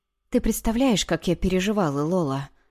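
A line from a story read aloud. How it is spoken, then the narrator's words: Quiet question. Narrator (Russian): тихо спросила Моника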